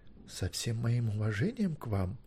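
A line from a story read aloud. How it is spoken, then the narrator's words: Quiet but firm objection. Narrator (Russian): тихо, но твердо возражал Керен Квирт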